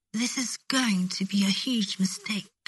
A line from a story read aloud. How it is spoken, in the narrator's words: Malfoy whispered against Harry's lips